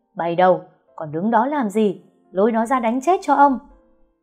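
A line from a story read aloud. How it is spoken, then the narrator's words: Old man screaming. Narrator (Vietnamese): Ông Hạnh gào lên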